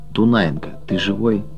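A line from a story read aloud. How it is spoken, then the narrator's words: Quiet question. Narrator (Russian): Григорий тихо спрашивает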